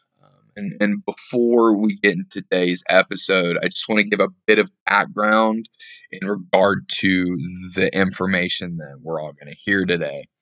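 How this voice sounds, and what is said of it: Slightly hampered, sick-sounding voice. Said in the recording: “I sound a little bit different. I'm a little under the weather, fighting off a cold... My voice is just a little hampered thanks to some coughing.”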